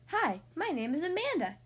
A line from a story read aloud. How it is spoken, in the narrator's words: she said cheerfully